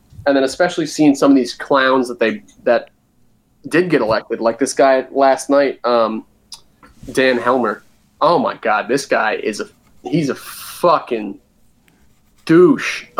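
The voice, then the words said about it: New Jersey accent. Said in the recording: “my Jersey accent's ... When I get fired up, it comes out.”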